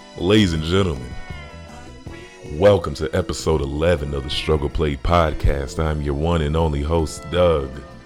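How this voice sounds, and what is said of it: Slow, sultry sexy voice. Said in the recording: “I gotta get into my sexy voice.”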